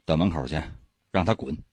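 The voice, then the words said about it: Quiet, hushed commanding voice. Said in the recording (Chinese): “小声命令道”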